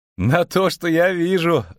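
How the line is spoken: Laughing. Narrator (Russian): засмеялся Барт

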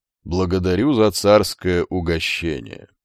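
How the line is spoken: Said with faint smile. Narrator (Russian): Одними губами улыбнулся Басилей

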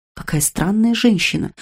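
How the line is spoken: Whispered. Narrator (Russian): прошептала мистрис Фрэнкленд

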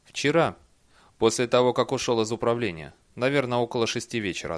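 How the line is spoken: Plain. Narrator (Russian): ответил Бейли

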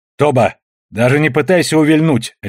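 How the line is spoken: Barked command. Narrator (Russian): рявкнула Дрема

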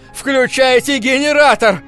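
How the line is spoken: Shouted. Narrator (Russian): закричал я

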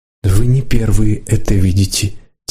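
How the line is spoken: Said quietly. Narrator (Russian): тихо сказала Лидка

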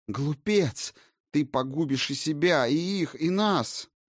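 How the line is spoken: Shrieking witch mother. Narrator (Russian): взвизгнула мать-ведьм

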